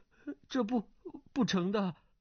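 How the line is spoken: Terrified trembling voice. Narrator (Chinese): 段誉吓得呆了，颤声道

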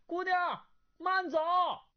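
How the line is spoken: Calling out after someone. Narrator (Chinese): 段誉眼见那女郎催得黑玫瑰越走越快，自己难以追上，叫道

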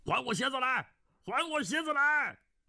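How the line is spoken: Ceaseless yelling. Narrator (Chinese): 哈赤一直不停口的大叫

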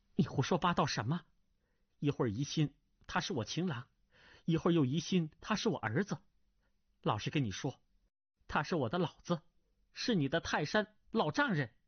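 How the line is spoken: Ashamed and angry spitting. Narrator (Chinese): 钟夫人又羞又怒，呸的一声说道

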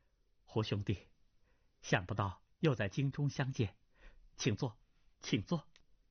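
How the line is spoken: Laughing. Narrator (Chinese): 马春花笑道

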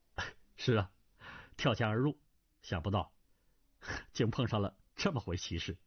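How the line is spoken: Laughing. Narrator (Chinese): 胡斐笑道

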